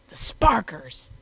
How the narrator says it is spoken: he roared

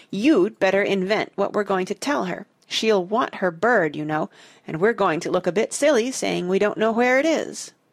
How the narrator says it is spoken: she said through her teeth

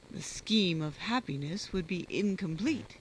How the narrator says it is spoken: said Colonel Ross with a sneer

